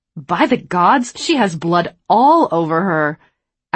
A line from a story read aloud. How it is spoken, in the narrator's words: Adeline snapped